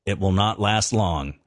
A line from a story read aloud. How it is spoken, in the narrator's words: he said